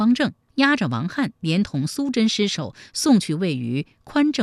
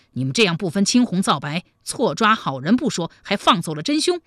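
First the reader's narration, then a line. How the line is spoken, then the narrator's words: Angry. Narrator (Chinese): 王翰怒道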